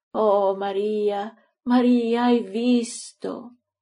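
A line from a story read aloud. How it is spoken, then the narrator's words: Moaning. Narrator (Italian): geme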